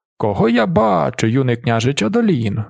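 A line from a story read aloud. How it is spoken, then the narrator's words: Exclaiming. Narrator (Ukrainian): вигукнув він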